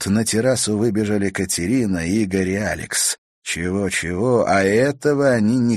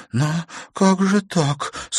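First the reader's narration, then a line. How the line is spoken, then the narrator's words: Tearful question. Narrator (Russian): сквозь слезы спросила Наташа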